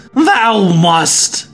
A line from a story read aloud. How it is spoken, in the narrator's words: he yelled